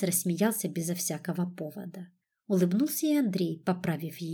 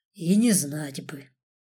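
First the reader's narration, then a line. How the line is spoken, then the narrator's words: Sighing. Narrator (Russian): вздохнул Борис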